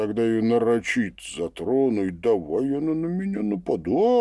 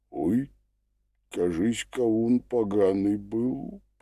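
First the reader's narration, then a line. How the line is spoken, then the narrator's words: Groan. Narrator (Russian): простонал Семен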